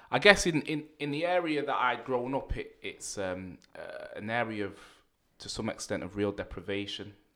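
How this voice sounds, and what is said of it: Manchester English accent. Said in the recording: “I grew up in Manchester ... You can tell by the accent”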